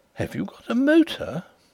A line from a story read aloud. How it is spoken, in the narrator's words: The astonishment in her tone as she exclaimed